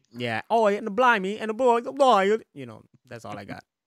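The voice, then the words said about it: Bad put-on British accent. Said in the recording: “to me it's like bad ones, but they all have British accents... that's the best British accent I got”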